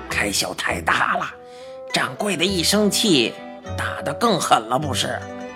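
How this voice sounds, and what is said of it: Quiet, hushed voice. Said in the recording (Chinese): “怪老头小声说”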